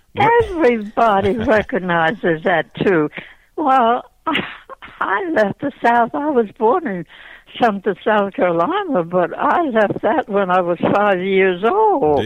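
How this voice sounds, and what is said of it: Slight Southern US accent. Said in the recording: “your accent or your I won't call it a southern drawl, but there is something else there besides Philadelphia ... I still have that little accent? ... you have the accent and the charm”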